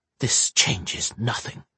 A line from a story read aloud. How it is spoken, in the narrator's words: hissed under her breath, trying to convince herself